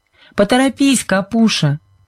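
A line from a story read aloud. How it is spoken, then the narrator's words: Shouting. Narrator (Russian): крикнула Сьюзен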